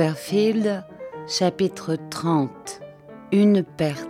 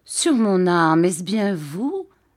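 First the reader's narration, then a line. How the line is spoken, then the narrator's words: Plain. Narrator (French): dit Monsieur Homer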